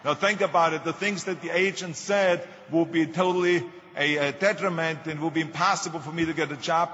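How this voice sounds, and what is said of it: Strong distinctive foreign accent. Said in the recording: “my crazy accent”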